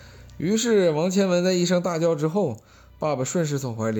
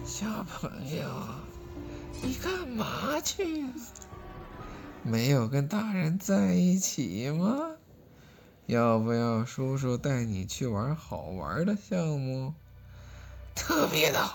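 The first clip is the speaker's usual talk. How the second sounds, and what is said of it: Sinister, creepy voice. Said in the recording (Chinese): “用阴阴的声音说”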